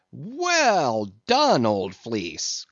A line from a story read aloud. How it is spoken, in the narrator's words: cried Stubb